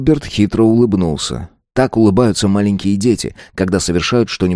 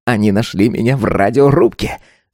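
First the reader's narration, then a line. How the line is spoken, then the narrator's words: Giggle. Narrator (Russian): Джилберт хихикнул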